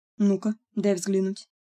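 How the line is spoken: Plain. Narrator (Russian): сказал Локвуд

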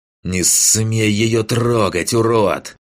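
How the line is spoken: Hissing. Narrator (Russian): прошипел маг

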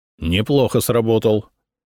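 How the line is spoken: Smirking grunt. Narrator (Russian): хмыкнул Ода

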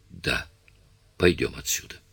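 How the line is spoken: Whispered. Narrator (Russian): прошептала она

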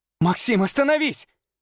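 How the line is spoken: Shout. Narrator (Russian): крикнула она

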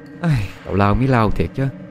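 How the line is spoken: Weary laughing sigh. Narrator (Vietnamese): Trúc cũng cười thở dài chán nản

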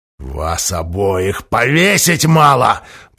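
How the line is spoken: Wheezing. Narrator (Russian): просипел Махоуни

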